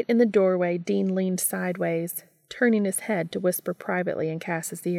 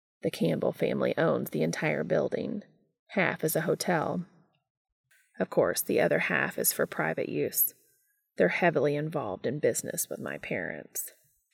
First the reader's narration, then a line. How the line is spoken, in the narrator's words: Cass explained very quietly